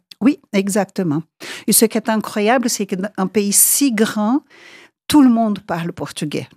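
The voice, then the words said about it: Brazilian accent in French. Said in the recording (French): “c'est très joli votre accent... Malgré le nombre des années que vous avez passées déjà en Suisse, vous l'avez toujours gardé”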